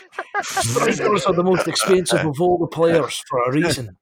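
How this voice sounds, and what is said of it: Scottish accent imitating Graeme Souness. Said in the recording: “Souness was saying... You're going to love my Scottish accent, lads.”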